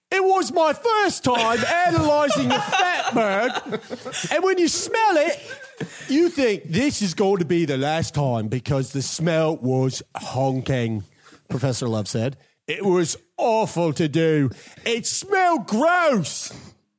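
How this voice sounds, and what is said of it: Put-on UK accent. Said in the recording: “I do my best, UK accent. ... my impression of John Love”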